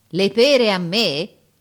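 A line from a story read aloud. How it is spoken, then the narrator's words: Shouting. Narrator (Italian): urlava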